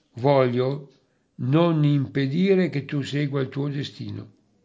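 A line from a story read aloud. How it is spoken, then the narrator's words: Sighing reply. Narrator (Italian): come in un sospiro, gli rispose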